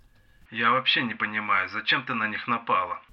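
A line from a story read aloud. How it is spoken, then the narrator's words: Elf grumbling. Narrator (Russian): проворчал эльф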